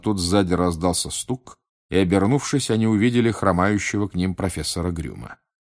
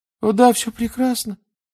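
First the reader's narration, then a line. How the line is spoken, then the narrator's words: Babbling, unnaturally high pitch. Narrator (Russian): пролепетал он все тем же неестественно высоким тоном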